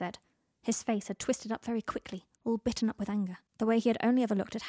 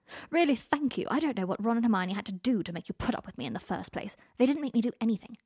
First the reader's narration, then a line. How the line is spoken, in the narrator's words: Harry snapped